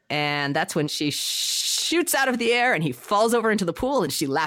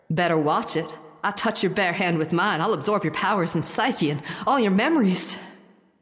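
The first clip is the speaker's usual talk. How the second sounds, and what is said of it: Southern accent as Rogue. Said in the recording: “Do you want me to try to Southern accent it up and get my Rogue on?”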